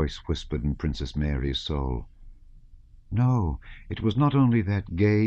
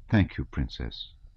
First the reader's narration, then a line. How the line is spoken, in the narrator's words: he added softly